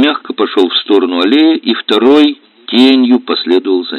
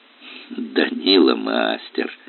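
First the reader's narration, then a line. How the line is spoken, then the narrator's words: Quiet youthful laugh. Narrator (Russian): тихо засмеялся моложавый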